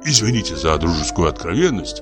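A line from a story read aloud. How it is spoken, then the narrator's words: Whisper. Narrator (Russian): зашептал Михаил Аверьянович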